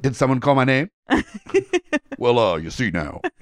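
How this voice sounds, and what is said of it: Johnny Bravo cartoon character voice. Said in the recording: “my whole impression... The problem is it was good.”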